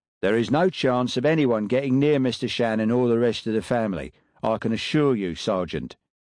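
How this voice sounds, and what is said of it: Distinct Cockney accent. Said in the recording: “in a distinct Cockney accent”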